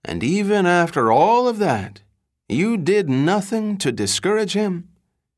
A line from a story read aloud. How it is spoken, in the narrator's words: as though veiled in a private grief, the lawyer wistfully said